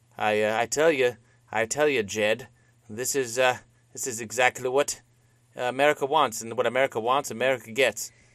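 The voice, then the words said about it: Put-on Citizen Kane character voice. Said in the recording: “this is my Citizen Kane voice”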